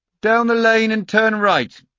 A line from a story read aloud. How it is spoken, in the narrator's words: he shouted after me